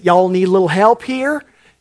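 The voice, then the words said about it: Put-on Southern US accent. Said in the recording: “says in his southern accent”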